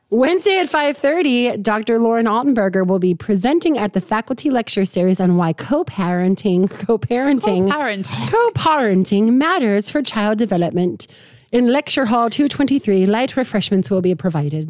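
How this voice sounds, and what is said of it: Put-on accent for announcement. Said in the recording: “Oh, the accent. ... Very nice accent. ... Good touch.”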